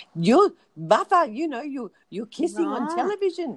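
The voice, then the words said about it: Bad put-on Greek grandmother accent. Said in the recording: “that's a bad Greek accent, but, you know, the grandmother”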